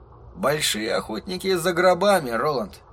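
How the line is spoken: Muttered. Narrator (Russian): пробормотал Эдди

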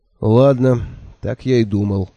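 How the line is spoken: Dejected voice. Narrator (Russian): упавшим голосом сказал я

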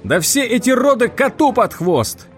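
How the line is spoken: Yelling. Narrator (Russian): заорал Тед

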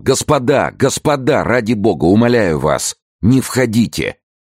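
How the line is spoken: Shouting. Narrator (Russian): Бикара товарищам прокричал

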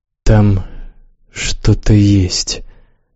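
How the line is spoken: Muffled, hollow. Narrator (Russian): глухо сказала Яска

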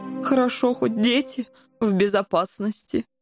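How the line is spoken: Sighing. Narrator (Russian): вздохнул пан Коржик

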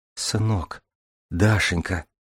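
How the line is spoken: Quiet, muffled whisper. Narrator (Russian): тихо прошептала Веселина, зажав рот ладонью

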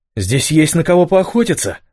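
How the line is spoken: Joyful. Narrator (Russian): радостно проговорил Адриан

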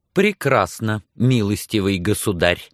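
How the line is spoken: Grim threat. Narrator (Russian): мрачно пригрозила она

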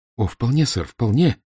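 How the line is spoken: Heartfelt exclamation. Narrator (Russian): с чувством воскликнул я

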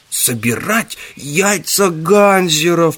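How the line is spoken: Groaned. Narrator (Russian): простонал яйцо Ганзера

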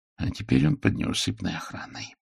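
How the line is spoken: Mutter. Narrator (Russian): пробормотал мой друг

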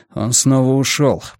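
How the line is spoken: Grumble. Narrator (Russian): проворчал Йона

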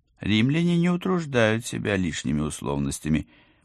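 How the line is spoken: Cheerful. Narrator (Russian): бодро начала я

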